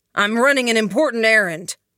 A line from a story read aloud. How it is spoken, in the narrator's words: said, raising his voice